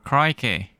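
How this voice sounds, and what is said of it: Weak put-on Australian accent. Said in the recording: “do an Australian accent ... we're recasting the role”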